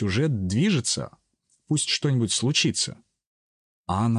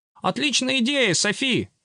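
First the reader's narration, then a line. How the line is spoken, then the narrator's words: Exaggeratedly enthusiastic shout. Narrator (Russian): с преувеличенным энтузиазмом крикнул Ачи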